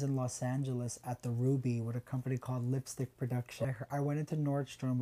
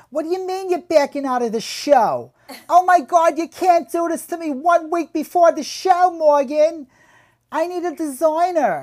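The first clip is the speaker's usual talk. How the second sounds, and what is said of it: Screaming with New York accent. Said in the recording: “I heard this lady screaming on the phone with this like New York accent.”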